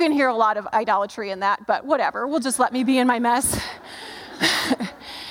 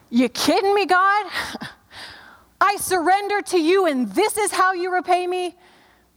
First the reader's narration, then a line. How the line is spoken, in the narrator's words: I screamed at God